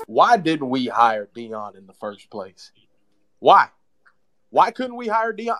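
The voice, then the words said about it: Put-on country accent. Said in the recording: “put on my best country accent”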